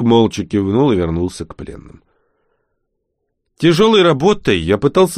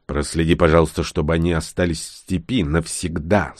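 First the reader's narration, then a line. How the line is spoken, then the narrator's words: Strained, forced out. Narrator (Russian): с трудом выдавил я из себя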